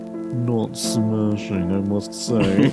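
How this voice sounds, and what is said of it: Pretentious posh character voice. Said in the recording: “You were doing the voice. ... pretend to be a pretentious Nigel Thornberry.”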